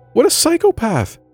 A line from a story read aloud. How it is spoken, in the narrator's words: exclaimed